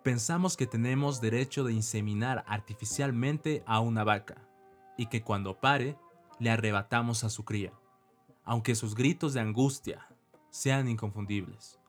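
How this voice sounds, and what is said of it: Announcer-style reading voice. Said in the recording (Spanish): “les voy a leer con voz de locutor”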